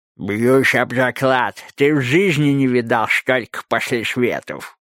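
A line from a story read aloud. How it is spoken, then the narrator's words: Toothless mumble. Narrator (Russian): прошамкал Лосяр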